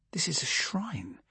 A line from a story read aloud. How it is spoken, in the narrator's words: I murmured